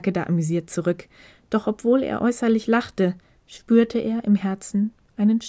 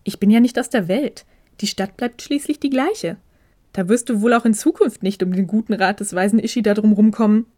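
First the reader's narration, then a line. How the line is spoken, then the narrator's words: Laughing. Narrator (German): lachte Ishida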